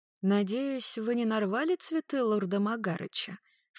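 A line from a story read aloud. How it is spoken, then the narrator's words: Low-voiced question. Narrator (Russian): вполголоса спросила Клариса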